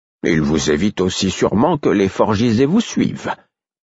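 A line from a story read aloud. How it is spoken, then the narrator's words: Calm declaration. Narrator (French): déclara calmement Rolf le Noir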